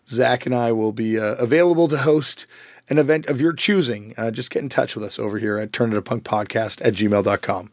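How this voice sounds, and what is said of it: Hoarse, worn-out voice. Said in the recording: “my voice is a little shot from this weekend of playing shows”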